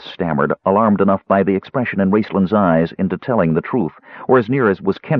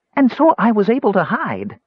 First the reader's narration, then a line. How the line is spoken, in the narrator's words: squeaked, not unlike the mouse